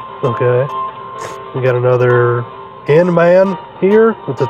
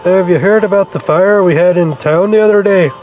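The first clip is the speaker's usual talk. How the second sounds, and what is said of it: Unidentifiable put-on accent for character. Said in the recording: “I don't know what that accent is”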